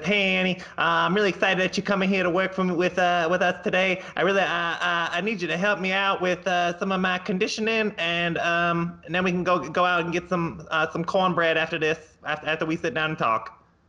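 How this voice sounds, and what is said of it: Imitates another person's voice. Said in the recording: “Is that a pretty good Ronnie Coleman impression?”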